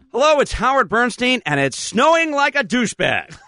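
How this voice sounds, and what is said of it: Announcer voice. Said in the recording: “My best announcer voice there.”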